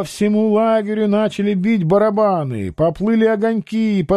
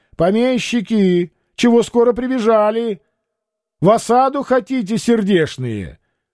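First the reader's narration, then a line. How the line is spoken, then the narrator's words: Shouted from afar. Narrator (Russian): С палисадов кричали им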